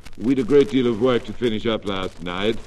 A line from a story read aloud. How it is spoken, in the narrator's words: replied the girl